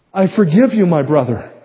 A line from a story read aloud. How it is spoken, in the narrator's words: I cried, with all my heart